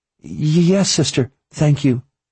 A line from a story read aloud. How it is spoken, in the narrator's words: she stammered